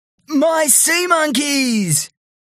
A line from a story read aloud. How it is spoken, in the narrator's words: He yelled